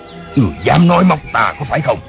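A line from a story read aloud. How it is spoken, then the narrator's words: Impatient irritated shout. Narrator (Vietnamese): Nam Hải Ngạc Thần ... sốt ruột bực dọc lắm rồi, y cáo tiếc quát lên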